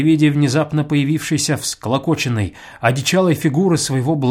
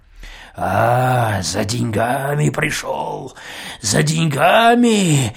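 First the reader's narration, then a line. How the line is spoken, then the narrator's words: Choking wheeze. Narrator (Russian): захрипел он, словно не он душил, а его душили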